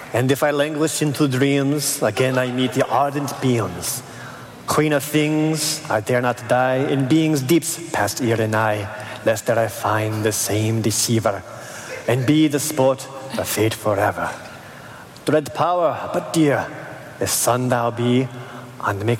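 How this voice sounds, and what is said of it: Put-on French accent. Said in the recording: “I am not going to do a French accent. I'm sorry. ... Can I try?”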